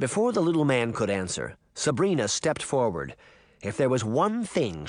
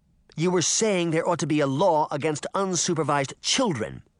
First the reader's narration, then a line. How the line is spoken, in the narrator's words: Sabrina said angrily